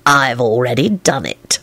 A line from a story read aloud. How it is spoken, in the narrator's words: Lupin hissed in a positively serpentine tone